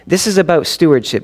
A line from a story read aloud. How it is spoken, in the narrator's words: Jesus said